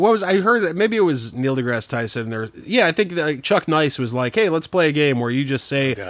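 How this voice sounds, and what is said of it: Usual voice. Nothing is said of it.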